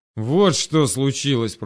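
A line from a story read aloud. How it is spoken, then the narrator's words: Growl. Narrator (Russian): прорычал Селин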